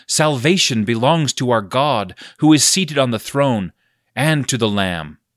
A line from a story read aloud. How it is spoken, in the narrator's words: they cried out in a loud voice, saying